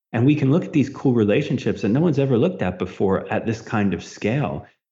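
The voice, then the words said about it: Excited, animated voice. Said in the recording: “I'm geeking out a little bit. You can hear it in my voice probably.”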